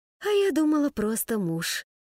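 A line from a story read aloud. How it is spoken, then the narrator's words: Mock sigh. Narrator (Russian): притворно вздохнула она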